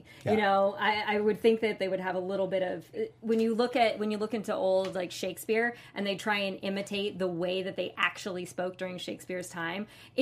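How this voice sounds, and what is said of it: Flat standard American accent. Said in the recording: “pretty like standard American like my accent's pretty Yank. It's very flat.”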